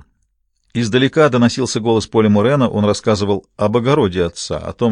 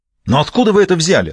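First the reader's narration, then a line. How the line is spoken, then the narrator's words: Irritated. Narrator (Russian): раздраженно проговорил Франкер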